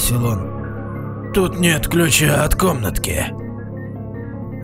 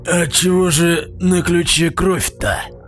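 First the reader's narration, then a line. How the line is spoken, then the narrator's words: Perm regional accent. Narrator (Russian): С пермским акцентом сказал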